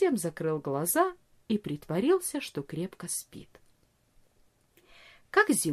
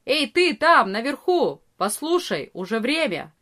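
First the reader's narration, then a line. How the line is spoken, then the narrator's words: Loud shout. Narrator (Russian): Арие кричал громко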